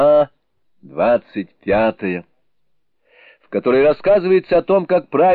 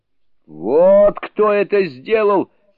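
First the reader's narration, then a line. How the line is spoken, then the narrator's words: Shouted. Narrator (Russian): крикнул тот Цзинфын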